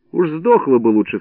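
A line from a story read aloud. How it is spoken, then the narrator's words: Plain. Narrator (Russian): сказал я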